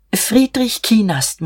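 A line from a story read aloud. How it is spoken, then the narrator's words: Murmured. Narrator (German): murmelte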